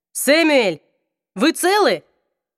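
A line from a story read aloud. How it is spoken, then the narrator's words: Hoarse shout. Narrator (Russian): Внутри камеры хрипло закричали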